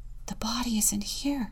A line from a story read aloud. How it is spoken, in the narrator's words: one of them whispered